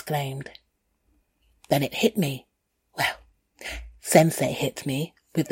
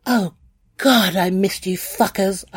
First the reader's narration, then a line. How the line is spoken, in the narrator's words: I cried